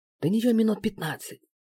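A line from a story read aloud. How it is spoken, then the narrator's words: Whispered. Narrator (Russian): шепнул я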